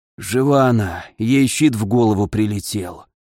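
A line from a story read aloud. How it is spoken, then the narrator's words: Old blacksmith's hoarse voice. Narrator (Russian): послышался хриплый голос Ламара, старого кузнеца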